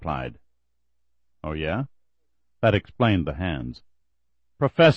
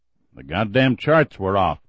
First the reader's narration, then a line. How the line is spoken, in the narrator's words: the professor grumbled